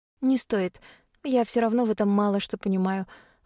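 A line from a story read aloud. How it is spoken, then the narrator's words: Sigh. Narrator (Russian): вздохнула я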